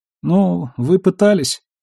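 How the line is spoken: Sad, smiling. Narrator (Russian): грустно улыбнулся Ларсон

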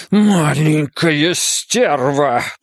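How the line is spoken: Hissed. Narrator (Russian): прошипел Ван Эк

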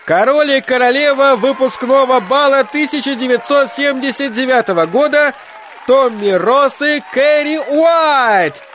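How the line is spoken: Loud shout into microphone. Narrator (Russian): выкрикнул Вик в микрофон так громко, что за грохотом колонок почти нельзя было разобрать слов

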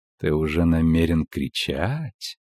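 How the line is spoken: Soft purring alto, close. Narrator (Russian): по-кошачьему замурлыкал мягкий альт у самого его уха

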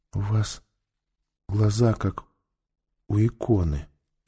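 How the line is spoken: Whisper. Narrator (Russian): прошептала она

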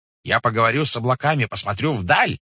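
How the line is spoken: Shouting. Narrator (Russian): кричала она

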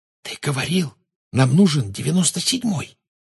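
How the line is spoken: Whisper. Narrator (Russian): прошептала Гермиона

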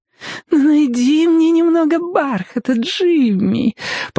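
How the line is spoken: Fake-sweet voice. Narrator (Russian): попросила она притворно сладким голосом

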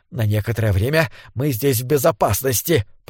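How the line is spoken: Hoarse rasp. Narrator (Russian): прохрипел он

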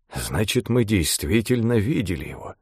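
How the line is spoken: Mumbling. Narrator (Russian): пробормотал Джерард

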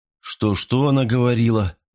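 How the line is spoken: Mumbling. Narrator (Russian): промямлил я

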